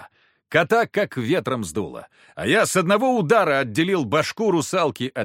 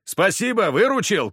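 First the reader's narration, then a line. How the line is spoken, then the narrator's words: Shouted. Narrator (Russian): крикнул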